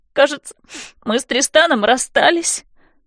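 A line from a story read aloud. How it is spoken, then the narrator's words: Sobbing. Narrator (Russian): рыдает она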